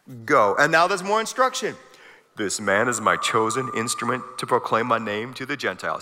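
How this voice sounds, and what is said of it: James Earl Jones impression. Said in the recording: “You know that's how God speaks, right? My best James Earl Jones impression.”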